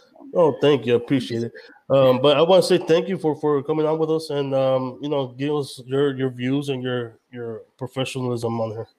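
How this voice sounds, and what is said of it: Deep voice with strong accent. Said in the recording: “I have a real deep voice. I have a real strong accent.”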